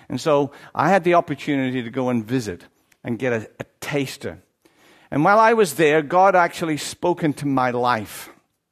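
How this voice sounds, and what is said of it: Irish accent. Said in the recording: “I have an Irish accent”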